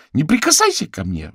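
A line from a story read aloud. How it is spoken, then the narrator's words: Shrieked. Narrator (Russian): взвизгнула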